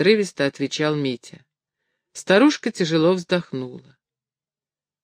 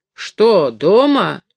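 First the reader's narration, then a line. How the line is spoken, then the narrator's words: Loud mocking question. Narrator (Russian): громко насмешливым голосом спросил кто-то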